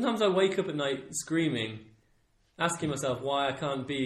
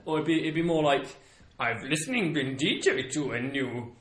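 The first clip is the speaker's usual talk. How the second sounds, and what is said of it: Bad Yoda impression. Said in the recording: “That's a really bad Yoda impression.”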